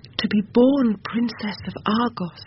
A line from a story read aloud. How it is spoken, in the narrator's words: cried, her voice ringing like gold on marble